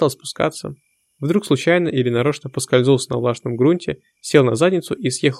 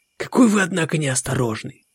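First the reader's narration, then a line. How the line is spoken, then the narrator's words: Whisper. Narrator (Russian): прошептал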